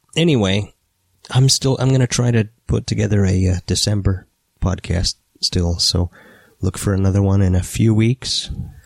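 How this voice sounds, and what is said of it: Rough, hoarse voice. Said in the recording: “I can't really do an interview if I don't have a voice. ... My voice is still pretty rough”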